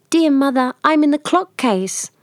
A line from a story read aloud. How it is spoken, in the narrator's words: a soft voice cried